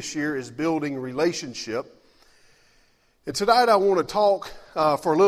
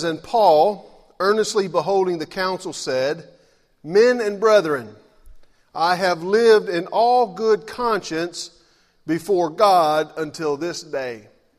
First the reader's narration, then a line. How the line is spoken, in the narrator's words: He said